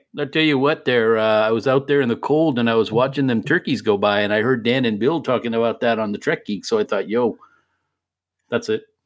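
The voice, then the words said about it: Baylock character voice impersonation. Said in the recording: “they just heard a Baylock impersonation ... he would always do his Baylock voice”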